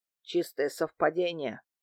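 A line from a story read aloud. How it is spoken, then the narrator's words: Grumbled. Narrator (Russian): пробурчал Дмитрий Иванович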